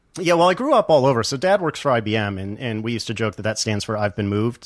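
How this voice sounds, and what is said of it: Unusual mixed regional accent. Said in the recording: “you have an unusual accent”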